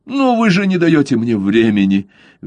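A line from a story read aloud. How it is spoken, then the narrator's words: Desperate exclamation, governor. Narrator (Russian): в отчаянии воскликнул губернатор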